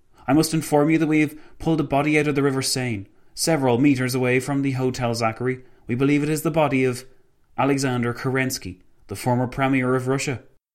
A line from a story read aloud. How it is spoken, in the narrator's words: the policeman exclaimed